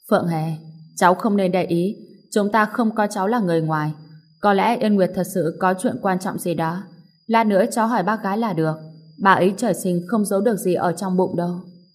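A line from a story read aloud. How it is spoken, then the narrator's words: Sighing. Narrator (Vietnamese): Tiêu Viễn Hà thở dài một tiếng, nói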